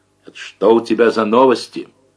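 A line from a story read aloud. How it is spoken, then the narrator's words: Sharp, unrestrained question. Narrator (Russian): Давыдов, не сдерживаясь, резко спросил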